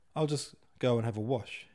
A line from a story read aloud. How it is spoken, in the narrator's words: he said